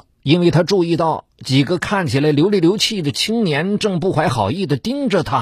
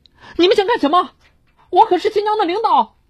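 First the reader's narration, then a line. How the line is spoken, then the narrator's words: Sinister sneering laugh. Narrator (Chinese): 一个青年奸笑着说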